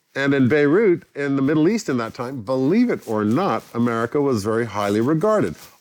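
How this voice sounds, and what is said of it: American accent. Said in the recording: “You've got a very American accent.”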